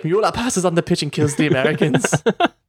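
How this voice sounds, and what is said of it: Put-on German accent. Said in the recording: “Your German accent is uncanny.”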